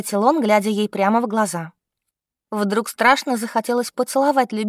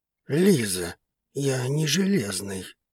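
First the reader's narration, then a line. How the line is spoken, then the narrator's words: Muttering. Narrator (Russian): пробормотал артегосец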